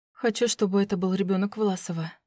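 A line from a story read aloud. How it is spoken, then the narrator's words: Whisper. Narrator (Russian): прошептала я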